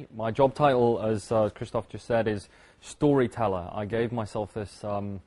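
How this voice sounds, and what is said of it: British accent. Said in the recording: “my accent, I'm not from Belgium. I originally from the UK.”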